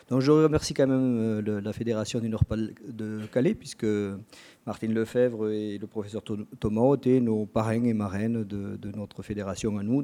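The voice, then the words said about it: Southwestern French regional accent. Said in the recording (French): “avec mon accent, je viens d'une région de terroir. Donc c'est le sud-ouest qui vous parle”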